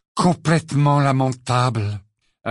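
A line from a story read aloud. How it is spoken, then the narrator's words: Hollow deep voice. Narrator (French): acheva Ron d'une voix caverneuse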